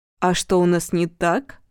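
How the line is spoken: Plain. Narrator (Russian): спросил Денис

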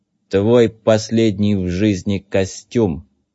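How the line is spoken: Sepulchral announcement. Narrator (Russian): Загробным голосом возвестил Зет

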